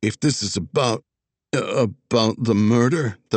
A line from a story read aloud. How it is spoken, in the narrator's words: the valet stuttered